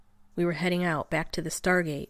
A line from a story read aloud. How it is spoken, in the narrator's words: Ronan growled